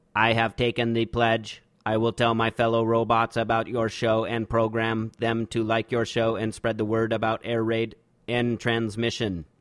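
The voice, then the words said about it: Robot voice. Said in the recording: “please read the following aloud in a robot voice”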